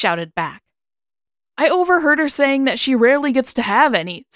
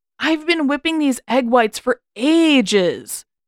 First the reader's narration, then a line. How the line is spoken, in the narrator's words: he whined